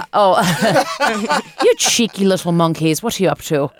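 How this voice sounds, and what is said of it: Imitated Irish accent. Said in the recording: “nannies from Ireland ... Do an impression of one, please.”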